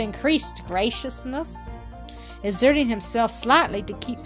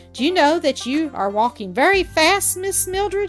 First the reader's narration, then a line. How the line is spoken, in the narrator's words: he said, laughing